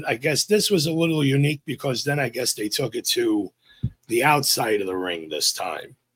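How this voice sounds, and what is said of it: New York accent. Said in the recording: “my NY accent”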